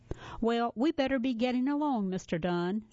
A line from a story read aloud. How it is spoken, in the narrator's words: said Billy